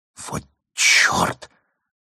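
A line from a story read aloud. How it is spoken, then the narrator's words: Barely audible whistle. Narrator (Russian): присвистнула она едва слышно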